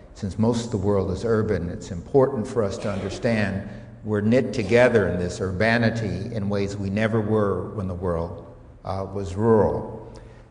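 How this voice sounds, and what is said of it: Strong American accent. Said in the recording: “this rather strong American accent”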